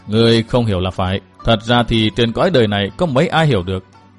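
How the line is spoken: Smiling, gentle. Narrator (Vietnamese): Ông mỉm cười nói

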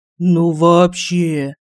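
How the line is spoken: Bewildered drawl. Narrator (Russian): протянул Семен Владимирович, не зная, как и реагировать на такую находку

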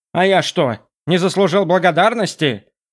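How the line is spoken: Grumbling. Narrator (Russian): проворчал Хамбард Вессел

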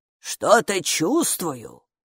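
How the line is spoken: Muttered. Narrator (Russian): пробормотала

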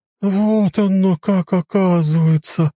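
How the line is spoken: Drawling. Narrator (Russian): протянула Марья Ивановна

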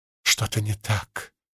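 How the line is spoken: Quiet. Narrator (Russian): тихо сказала она

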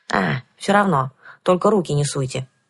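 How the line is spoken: Resigned sigh. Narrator (Russian): вздохнула я

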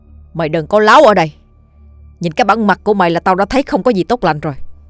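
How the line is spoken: Disbelieving angry shout. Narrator (Vietnamese): Hào Cọp không tin, quát lên

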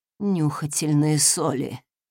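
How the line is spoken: Gasp. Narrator (Russian): выдохнула леди

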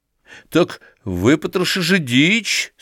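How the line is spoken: Trembling voice. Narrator (Russian): сказал он дрожащим голосом Филиппу

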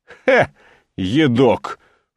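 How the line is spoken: Snorting. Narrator (Russian): фыркнул Аким

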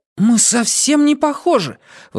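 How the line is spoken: Indignant. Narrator (Russian): возмущенно сказал парень

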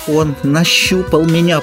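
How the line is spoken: Straining moan. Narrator (Russian): простонала, краснея от усилия

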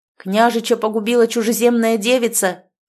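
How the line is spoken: Guilty guard shouting. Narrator (Russian): прокричал охранник, чувствуя свою вину

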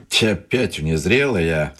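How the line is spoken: Irritated. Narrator (Russian): раздраженно сказал один стрелок

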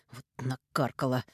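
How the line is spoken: Breathed out. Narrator (Russian): выдохнул

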